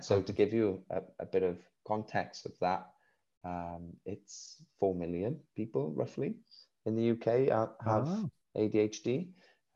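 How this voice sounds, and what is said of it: Welsh accent. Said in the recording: “We live in Wales, you can hear by my accent.”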